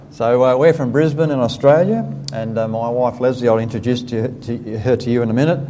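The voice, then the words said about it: Australian accent. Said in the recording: “I hope you get tuned to my voice fairly quickly ... Because I don't have an accent, you have an accent.”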